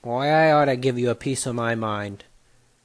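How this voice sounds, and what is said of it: Put-on New York mobster accent. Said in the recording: “a mafia member, that in a New York accent”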